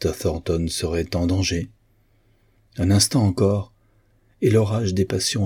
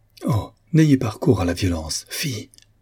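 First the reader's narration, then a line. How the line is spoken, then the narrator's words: Exclamation. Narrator (French): s'écria-t-elle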